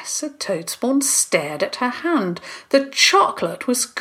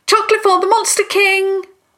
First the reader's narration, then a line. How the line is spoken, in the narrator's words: shouting after him